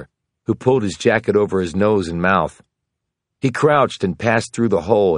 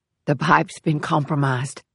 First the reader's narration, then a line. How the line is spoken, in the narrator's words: Brown said hoarsely